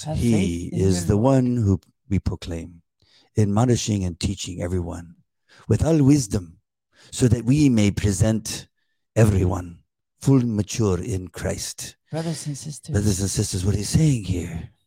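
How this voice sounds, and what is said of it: Imitates another person's accented reading voice. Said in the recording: “he's got a little bit of an accent, and he reads through the Bible, and he reads it kind of like this”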